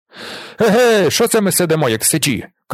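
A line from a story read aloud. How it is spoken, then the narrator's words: Shout. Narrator (Ukrainian): крикнув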